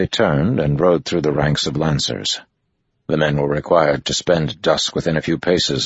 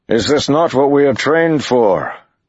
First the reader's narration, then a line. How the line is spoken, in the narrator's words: Lan shouted